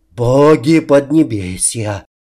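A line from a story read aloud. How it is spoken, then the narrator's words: Many gasping in unison. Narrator (Russian): выдохнули разом чуть ли не все в нашей группе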